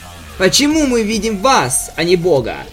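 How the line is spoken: Plain. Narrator (Russian): сказал Альберт

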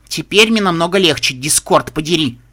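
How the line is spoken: Growling. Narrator (Russian): прорычала единорожка

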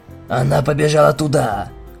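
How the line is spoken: Deliberately gruff low exclamation. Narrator (Russian): воскликнул я как можно более грубым и низким голосом

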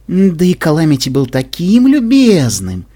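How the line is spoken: Cooing. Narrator (Russian): проворковала Вельвет

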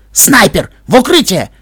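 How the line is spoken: Barked. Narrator (Russian): рявкнул Рингер

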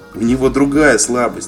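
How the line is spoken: Giggling. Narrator (Russian): хихикнул Вайс

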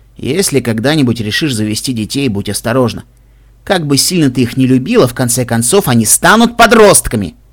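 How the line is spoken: Loud snort. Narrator (Russian): Каламити громко фыркнул

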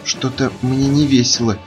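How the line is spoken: Frightened. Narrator (Russian): испуганно сказала Пинки

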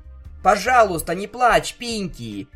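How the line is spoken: Desperate shout. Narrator (Russian): в отчаянии выкрикнул я

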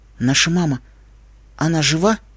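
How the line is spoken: Hoarse. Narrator (Russian): Сипло

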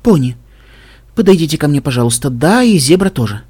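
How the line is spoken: Soft. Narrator (Russian): мягко сказала Вельвет

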